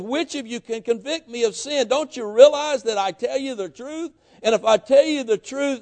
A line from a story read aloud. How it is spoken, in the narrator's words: he pleads with him